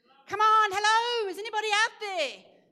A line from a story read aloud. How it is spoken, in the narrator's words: you're going to shout with all your might